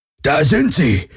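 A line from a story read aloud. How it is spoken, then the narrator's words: Old man calling. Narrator (German): rief ein älterer Mensch mit weißem Bart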